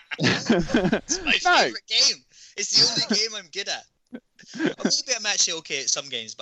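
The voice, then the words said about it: Glaswegian Scottish accent. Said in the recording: “the Glaswegian accent”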